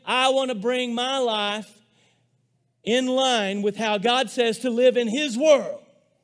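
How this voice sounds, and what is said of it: Loud, shouting preacher delivery. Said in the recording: “I'm yelling at you”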